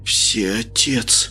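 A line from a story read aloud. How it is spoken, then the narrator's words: Breathed out. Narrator (Russian): выдохнул каббалист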